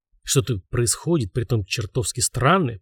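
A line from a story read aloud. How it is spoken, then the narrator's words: Mutter. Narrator (Russian): пробормотал он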